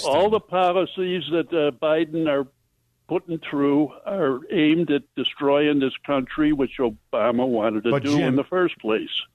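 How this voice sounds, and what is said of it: Old-time Chicago accent. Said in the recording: “You sound like an old time Chicagoan.”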